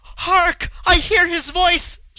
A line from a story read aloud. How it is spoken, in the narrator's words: almost sobbed